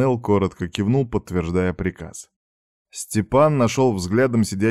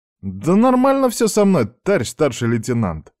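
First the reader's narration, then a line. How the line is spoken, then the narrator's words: Indignant. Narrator (Russian): возмущенно вскинулся Аникеев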